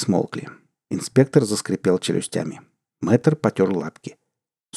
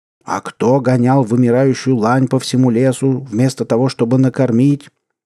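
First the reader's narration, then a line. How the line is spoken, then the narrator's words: Shouted. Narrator (Russian): выкрикнул инспектор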